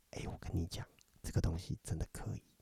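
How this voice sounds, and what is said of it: Soft whisper. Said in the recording (Chinese): “悄悄话 ... 你还很小声的讲悄悄话”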